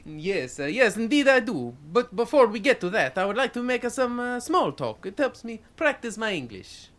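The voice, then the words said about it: Strong Italian accent. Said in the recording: “From your name and strong accent, I would say that you are both from overseas ... I am from Italy”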